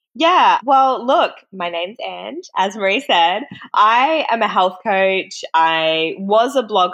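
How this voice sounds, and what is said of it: Australian accent. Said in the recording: “someone with an Australian accent ... I feel like we sound like bogans. I feel like our accents aren't as defined and we don't pronounce our words properly”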